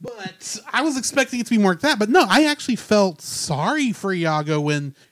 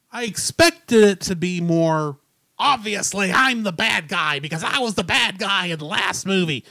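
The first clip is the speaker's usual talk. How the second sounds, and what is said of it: Imitates another person's voice. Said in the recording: “bad Gilbert Gottfried impression”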